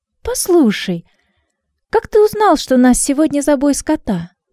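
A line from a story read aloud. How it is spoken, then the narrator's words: Exclaiming. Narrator (Russian): Трина воскликнула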